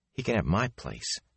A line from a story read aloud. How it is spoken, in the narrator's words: Matt muttered to Rand